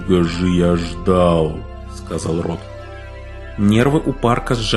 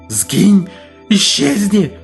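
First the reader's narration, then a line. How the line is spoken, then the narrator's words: Shrieking. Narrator (Russian): завизжал Парк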